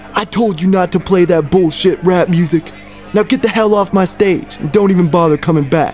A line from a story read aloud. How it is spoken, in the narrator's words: A man stormed on stage yelling